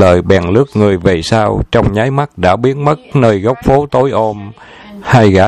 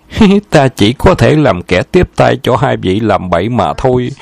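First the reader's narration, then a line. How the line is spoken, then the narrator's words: Smiling. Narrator (Vietnamese): Sư phi huyên mỉm cười nói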